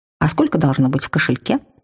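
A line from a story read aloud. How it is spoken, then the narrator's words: Joking tone. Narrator (Russian): Я попыталась обратить разговор в шутку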